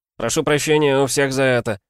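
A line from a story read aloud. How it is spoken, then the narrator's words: Knight shouting. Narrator (Russian): крикнул игрорыцарь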